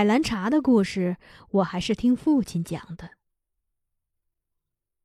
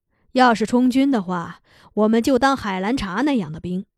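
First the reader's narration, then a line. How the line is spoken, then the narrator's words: Sighing. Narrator (Chinese): 拉基达叹了口气，说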